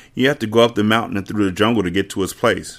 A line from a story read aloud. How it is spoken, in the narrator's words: she said quickly